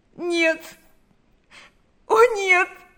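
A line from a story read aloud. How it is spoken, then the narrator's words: Sobbing. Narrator (Russian): зарыдала она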